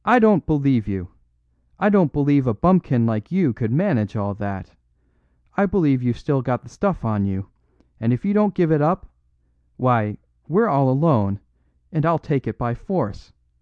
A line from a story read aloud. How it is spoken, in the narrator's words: He cried